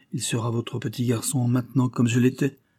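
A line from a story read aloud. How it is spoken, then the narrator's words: Trembling voice. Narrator (French): dit-il d'une voix tremblante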